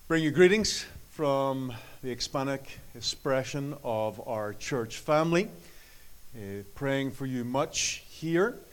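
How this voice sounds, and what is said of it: Irish accent. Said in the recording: “You can tell I still have my Irish accent. ... I haven't lost the accent. It is still there.”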